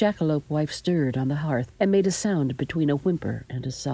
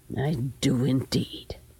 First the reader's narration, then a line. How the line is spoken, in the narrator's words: she said grimly